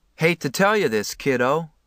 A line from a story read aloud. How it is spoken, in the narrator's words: the guy said dryly